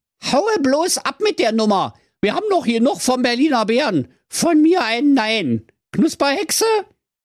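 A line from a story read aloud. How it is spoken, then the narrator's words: Calling out. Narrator (German): rief der Dieter Biber-Butzebohlen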